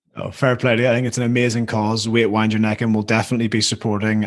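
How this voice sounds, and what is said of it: Northern Irish accent. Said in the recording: “this incoherent Northern Irish accent”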